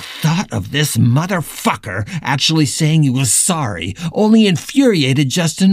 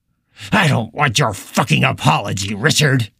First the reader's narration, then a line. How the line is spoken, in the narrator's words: Justin spat at him